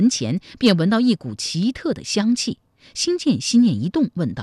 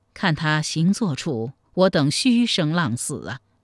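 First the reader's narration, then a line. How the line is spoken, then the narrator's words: Sighing. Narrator (Chinese): 太平公主也叹息道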